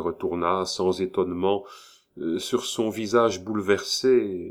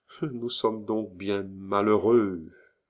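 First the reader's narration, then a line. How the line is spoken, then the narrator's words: Slow, deliberate. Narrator (French): prononça-t-elle lentement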